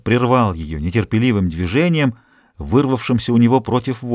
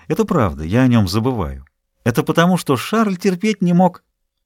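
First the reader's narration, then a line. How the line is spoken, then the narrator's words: Young woman, cheerful reply. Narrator (Russian): Молодая женщина весело ответила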